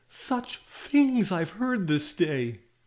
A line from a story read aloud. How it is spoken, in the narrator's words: she cried